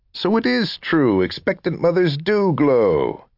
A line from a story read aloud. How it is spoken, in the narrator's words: Ellen laughed